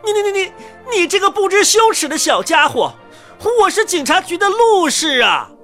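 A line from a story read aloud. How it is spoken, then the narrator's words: Squeaky chirping. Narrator (Chinese): 这声音在小孩的耳朵里，就像是一阵叽叽声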